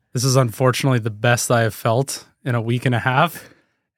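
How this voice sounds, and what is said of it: Rough, unwell-sounding voice. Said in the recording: “if you can hear my voice, that's not a good sign ... he sounds terrible”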